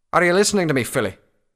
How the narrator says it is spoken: Redbrand asked irritably

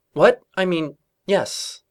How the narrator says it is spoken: Twilight stammered

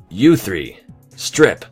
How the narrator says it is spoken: he snapped

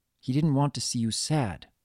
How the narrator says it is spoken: she said in a sympathetic tone

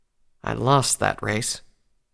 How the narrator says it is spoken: Rainbow said quietly

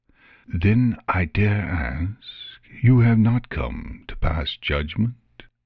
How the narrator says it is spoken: he said in a slow, careful voice

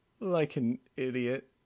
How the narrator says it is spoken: groaned, his body still sore

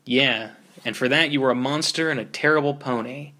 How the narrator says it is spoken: Spike sneered

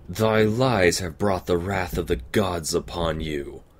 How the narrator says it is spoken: Luna roared

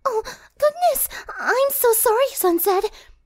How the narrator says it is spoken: squeaked

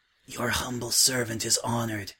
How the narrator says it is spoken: he whispered

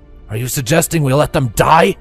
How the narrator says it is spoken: Shunningummer growled

